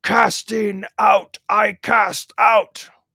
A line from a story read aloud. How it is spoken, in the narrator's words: Father Ferapont suddenly roared